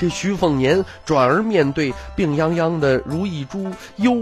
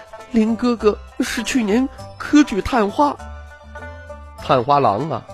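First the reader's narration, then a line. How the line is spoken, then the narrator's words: Tearful trembling voice. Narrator (Chinese): 樊妹妹泪水晶莹，京剧颤声道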